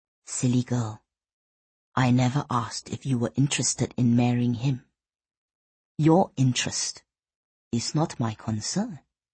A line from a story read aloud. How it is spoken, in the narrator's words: he said in a low whisper